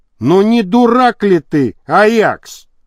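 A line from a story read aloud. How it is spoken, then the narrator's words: Shouting. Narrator (Russian): крикнул Енисеев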